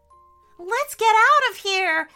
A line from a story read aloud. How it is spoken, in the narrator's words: yelled Elliot